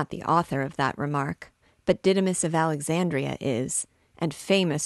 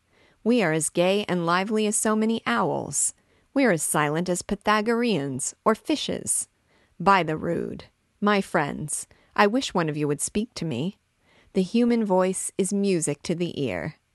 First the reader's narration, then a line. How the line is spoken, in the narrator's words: suddenly exclaimed Gringoire